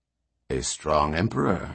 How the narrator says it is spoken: muttered Barr

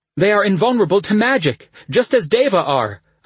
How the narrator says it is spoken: I gasped

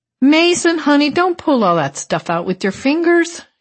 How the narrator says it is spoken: she shouted affectionately above the music, which had risen in pitch

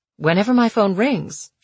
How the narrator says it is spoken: she said

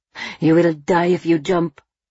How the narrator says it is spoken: someone else hisses

